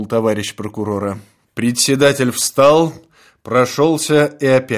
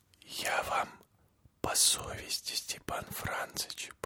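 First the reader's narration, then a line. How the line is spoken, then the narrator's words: Barely audible whisper. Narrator (Russian): продолжал он едва слышным шепотом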